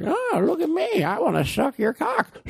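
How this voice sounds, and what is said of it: Impression of Family Guy's old pervert. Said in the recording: “That would be a funny thing for Family Guy if the old guy did that. You know, the pervert? ... I don't really try to do his voice. I don't want the voice actor that does that voice to get nervous.”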